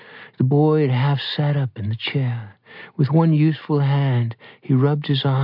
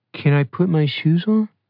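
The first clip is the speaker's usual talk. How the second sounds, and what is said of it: Small, high child's voice. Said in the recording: “It was a small, high voice.”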